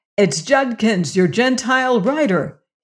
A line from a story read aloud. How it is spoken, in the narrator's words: he cried